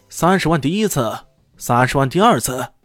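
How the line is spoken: Loud delighted shout. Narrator (Chinese): 拍卖师惊喜莫名，大声喊道

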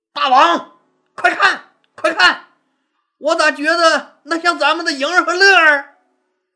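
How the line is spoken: Sudden loud shout. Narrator (Chinese): 夏侯婴突然大声喊道

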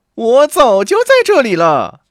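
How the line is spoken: Calling out. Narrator (Chinese): 刺猬的女人叫道

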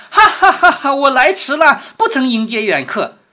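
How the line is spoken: Laughing. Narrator (Chinese): 有人笑着说

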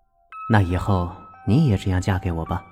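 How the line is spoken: Soft words near ear. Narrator (Chinese): 康思旭柔声的在他耳边说

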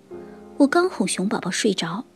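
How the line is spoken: Mother bear, quiet. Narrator (Chinese): 熊妈妈小声说

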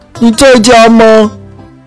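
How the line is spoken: Call from outside door. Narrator (Chinese): 有人在门外喊

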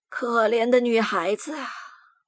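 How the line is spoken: Worried sighing. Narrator (Chinese): 他又做出一副发愁的样子，叹着气说

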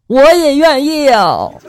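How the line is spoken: Loud immediate answer. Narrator (Chinese): 新郎立刻大声的就回答了

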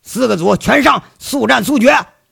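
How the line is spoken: Blunt shout through loudspeaker. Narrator (Chinese): 杨伟可一点不客气了， 那喇叭里一喊

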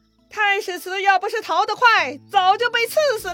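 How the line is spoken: Shouting. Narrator (Chinese): 让手下军士大喊

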